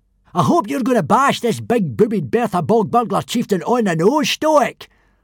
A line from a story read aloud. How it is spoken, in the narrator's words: roared Baggy Bum the Beer Belly